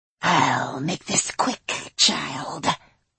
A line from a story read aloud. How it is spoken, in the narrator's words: he hissed